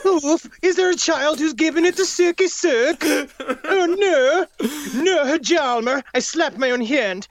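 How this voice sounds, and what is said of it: Put-on Swedish accent, admittedly poor. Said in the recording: “if Charles Ng was born a Swedish man ... I don't know how to do a Swedish accent”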